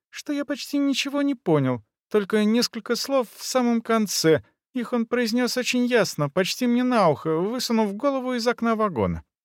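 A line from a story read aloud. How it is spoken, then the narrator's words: Thin-voiced explanation. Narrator (Russian): тонким голосом объяснил Везин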